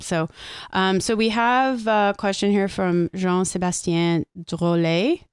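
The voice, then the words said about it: Put-on French accent. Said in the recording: “Listen to that French accent. ... My French. Nice.”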